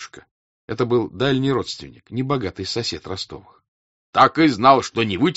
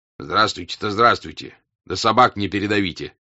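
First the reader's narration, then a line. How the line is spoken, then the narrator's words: Stern older man. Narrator (Russian): строго сказал дядюшка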